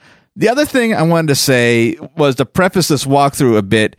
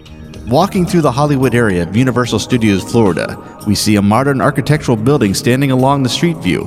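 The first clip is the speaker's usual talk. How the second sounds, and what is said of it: Audiobook narrator voice. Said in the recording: “putting on my best audiobook narrator voice”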